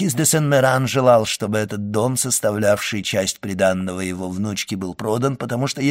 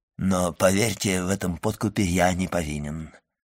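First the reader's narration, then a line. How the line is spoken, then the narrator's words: Mumble with forced smile. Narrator (Russian): пробормотал Вильфор, пытаясь улыбнуться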